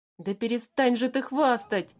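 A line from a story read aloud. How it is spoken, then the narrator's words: Pleading. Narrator (Russian): взмолился Алеша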